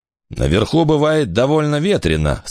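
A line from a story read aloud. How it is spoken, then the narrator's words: Happy laughter. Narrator (Russian): сказал Дес и счастливо рассмеялся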